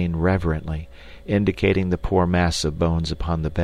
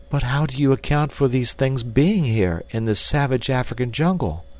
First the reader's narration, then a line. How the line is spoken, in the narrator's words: exclaimed the girl